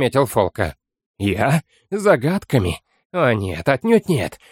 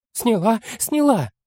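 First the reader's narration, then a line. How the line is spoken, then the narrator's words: Girl exclaiming. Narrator (Russian): воскликнула девушка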